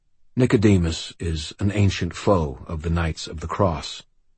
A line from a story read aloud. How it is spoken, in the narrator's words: Forthill said quietly